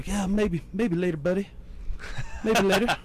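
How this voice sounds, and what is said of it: Imitates another person's voice. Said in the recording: “great Snodgrass impression”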